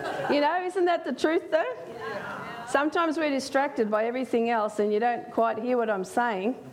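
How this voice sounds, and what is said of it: Speaks with a noticeable accent. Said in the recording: “so you can get used to my accent for those that haven't heard me speak before”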